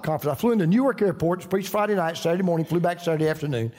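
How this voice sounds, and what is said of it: Southern US accent. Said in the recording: “I just love your accent. ... Oh, you're from the South.”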